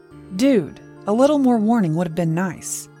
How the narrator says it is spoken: he growled back

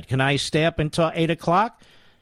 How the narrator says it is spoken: Mary asked breathlessly

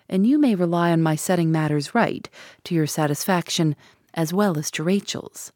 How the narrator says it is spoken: added in a lower tone

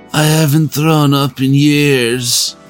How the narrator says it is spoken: he moaned as he broke into tears

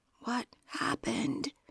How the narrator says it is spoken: could only whisper

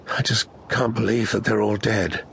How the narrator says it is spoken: said in a hollow voice

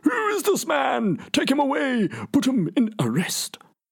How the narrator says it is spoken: he flies into one of his rages and screams

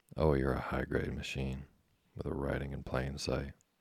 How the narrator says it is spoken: the Philadelphian yawned

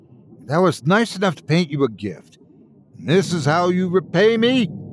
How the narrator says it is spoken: she yelled

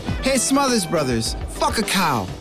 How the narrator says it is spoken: Lennon, a natural heckler, yelled to the stage

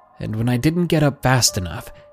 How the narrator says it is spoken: he snapped at me

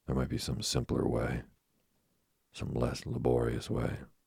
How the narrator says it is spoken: she sighed

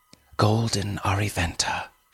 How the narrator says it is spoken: she whispered

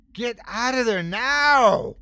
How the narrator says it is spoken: I screamed

